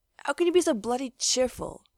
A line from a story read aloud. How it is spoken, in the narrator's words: he grumbled